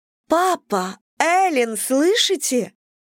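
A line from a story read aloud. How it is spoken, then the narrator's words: Childlike exclamation. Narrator (Russian): воскликнула она по-детски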